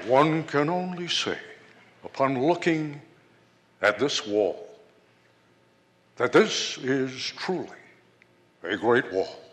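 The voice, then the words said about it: Nixon impression. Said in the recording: “that's a pretty damn good Nixon impression”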